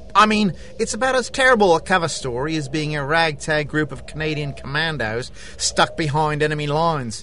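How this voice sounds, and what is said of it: Australian accent. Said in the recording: “That accent says you're not from around here. ... I'm an Australian secret agent.”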